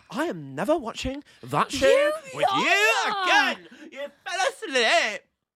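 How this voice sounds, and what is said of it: Imitates another person's voice. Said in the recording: “my impression of you”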